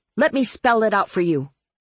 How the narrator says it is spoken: I snapped at Marlowe

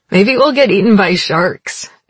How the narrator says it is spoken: said, then laughed drunkenly

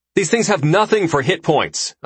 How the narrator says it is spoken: I yell

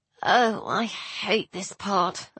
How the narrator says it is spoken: I muttered

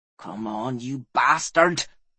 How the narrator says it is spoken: whispered Fel

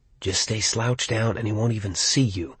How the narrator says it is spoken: that craven, traitorous part of my mind whispered

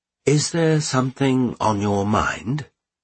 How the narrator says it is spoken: asked the Count

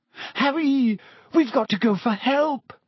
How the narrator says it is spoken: Hermione gasped

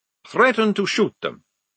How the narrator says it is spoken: said Maledict firmly

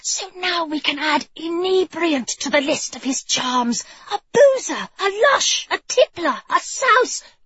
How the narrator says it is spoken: she'd hissed

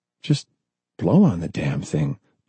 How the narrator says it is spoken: John whispered

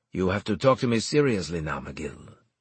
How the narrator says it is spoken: he said

